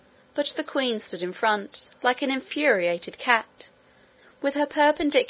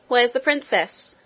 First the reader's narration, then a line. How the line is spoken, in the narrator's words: cried Curdie again and again